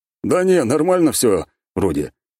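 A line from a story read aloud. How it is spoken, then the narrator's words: Snorting. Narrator (Russian): хмыкнул Самохвалов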